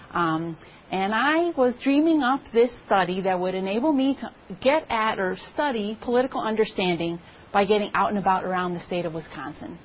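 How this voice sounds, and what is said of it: Wisconsin accent. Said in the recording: “You can probably hear it in my voice already. I'm a lifelong Wisconsinite.”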